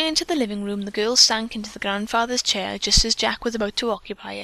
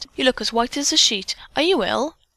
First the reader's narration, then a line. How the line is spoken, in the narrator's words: Dick exclaimed